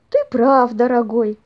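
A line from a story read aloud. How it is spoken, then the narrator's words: Sighing. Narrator (Russian): вздохнула бабушка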